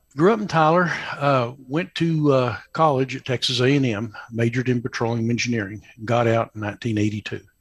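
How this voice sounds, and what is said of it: Slight East Texas drawl. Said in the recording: “I don't have a West Texas accent ... Still got the little East Texas drawl.”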